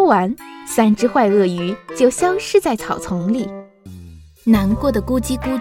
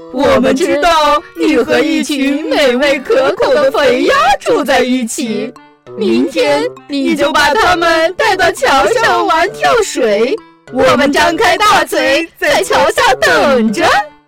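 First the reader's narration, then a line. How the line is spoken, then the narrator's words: Sly sneering laugh. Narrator (Chinese): 三只鳄鱼奸笑着说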